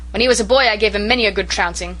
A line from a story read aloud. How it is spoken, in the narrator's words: shouted Norman Douglas